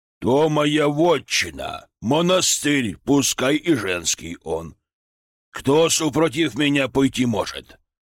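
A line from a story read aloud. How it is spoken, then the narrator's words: Roaring. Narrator (Russian): взревел тот патриарх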